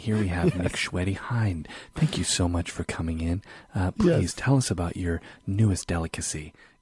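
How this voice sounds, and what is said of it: Close-mic whispery NPR radio voice. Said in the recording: “that NPR voice where they're really close to the microphone and it's sort of a whisper ... that total NPR voice”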